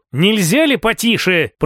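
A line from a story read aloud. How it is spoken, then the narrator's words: Muttered under breath. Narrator (Russian): пробурчал себе под нос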